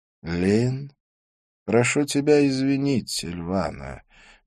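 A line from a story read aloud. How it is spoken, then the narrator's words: Soft. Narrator (Russian): мягко сказал Идрис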